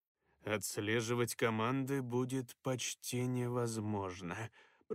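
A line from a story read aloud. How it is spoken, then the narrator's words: Muffled mutter. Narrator (Russian): пробормотал, уткнувшись лицом в схему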